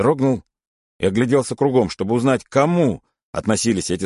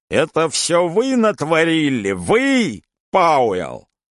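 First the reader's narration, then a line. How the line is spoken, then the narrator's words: Shrill furious yell. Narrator (Russian): агент пронзительно, яростно заорал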